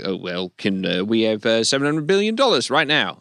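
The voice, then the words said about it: Poorly done put-on accent. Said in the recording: “That was a terrible accent”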